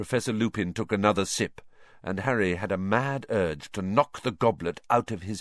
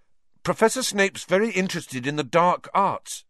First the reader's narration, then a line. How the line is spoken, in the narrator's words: he blurted out